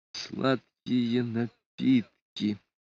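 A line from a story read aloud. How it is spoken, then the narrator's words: Read in an undertone. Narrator (Russian): прочел вполголоса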